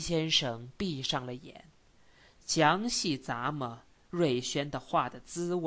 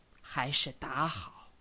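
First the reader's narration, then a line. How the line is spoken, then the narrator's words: Low voice after laughing. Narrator (Chinese): 瑞轩先笑了一下，而后声音很低的说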